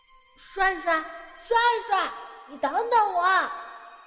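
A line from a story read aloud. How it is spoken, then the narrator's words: Shouting while running. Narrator (Chinese): 我一边追，一边喊着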